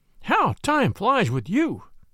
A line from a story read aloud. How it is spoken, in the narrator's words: he exclaimed